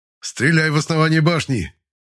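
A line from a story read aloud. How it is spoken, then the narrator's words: Shout. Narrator (Russian): прокричал Анторс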